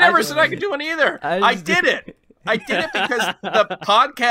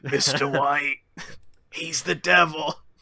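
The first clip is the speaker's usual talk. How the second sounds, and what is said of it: Poor imitation of another person's voice. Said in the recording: “That wasn't a good impression. ... That was a terrible. That was a terrible impression.”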